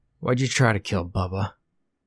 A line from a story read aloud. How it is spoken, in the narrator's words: he finally said